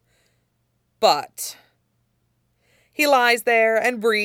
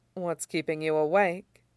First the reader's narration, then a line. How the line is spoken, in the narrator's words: Lan Xichun murmurs